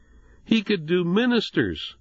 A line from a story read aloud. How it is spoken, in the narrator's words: Jonathan stammered